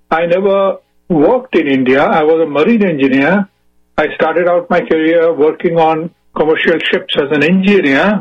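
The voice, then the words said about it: Indian English accent. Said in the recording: “I was, first of all, born in India. You can make out from my accent.”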